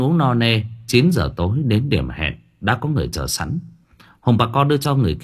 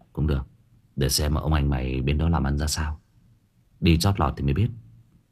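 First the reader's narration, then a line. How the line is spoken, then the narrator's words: Cold. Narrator (Vietnamese): Trần lạnh lùng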